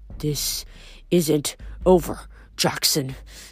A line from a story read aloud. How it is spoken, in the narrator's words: Chrysler growled